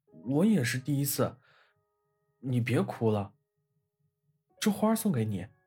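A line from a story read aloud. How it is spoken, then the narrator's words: Choked with tears. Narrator (Chinese): 小天使哽咽道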